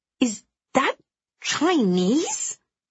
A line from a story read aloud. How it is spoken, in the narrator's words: I gasp